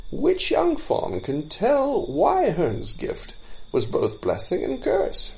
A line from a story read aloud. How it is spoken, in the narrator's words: said Blindweed in a cheerful voice that broke the spell